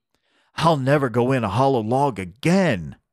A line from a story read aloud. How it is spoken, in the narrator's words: cried Beckie